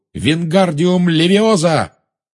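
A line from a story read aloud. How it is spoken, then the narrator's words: Shout. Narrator (Russian): он крикнул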